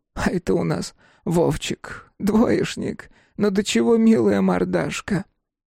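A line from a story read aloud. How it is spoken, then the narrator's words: Sad wry smile. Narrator (Russian): Грустно усмехнулась Шишига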